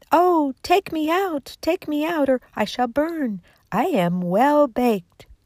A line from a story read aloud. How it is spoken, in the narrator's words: the bread cried